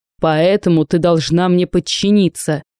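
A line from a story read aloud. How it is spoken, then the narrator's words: Uncle's growl. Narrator (Russian): Дядя зарычал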